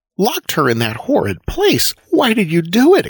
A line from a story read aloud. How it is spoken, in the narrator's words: exclaimed Cora indignantly